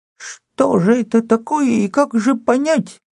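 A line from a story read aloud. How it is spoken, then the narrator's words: Toothless froglike mumble. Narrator (Russian): прошамкала она лягушачьим ртом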